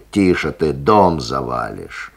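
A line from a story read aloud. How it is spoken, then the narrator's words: Irritated shouting behind door. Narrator (Russian): За дверью чей-то голос раздраженно покрикивает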